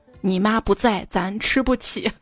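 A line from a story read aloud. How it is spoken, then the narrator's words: Sighing. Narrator (Chinese): 爸爸叹了一口气，说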